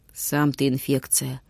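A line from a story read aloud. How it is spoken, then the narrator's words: Gloomy. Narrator (Russian): мрачно изронил Витюня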